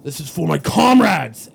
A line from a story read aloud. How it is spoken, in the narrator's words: I'm going to yell